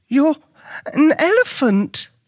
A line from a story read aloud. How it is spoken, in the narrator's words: Luke exclaimed